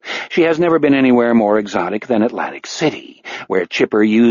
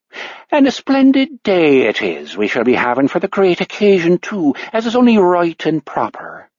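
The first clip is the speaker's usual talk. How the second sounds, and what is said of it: Fairly good, generic Irish accent. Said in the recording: “Her Irish accent is surprisingly good, if a bit generic.”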